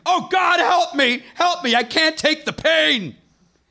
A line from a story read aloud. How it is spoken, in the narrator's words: I could hear horrific screaming and the words